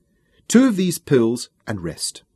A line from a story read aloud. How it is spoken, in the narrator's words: said firmly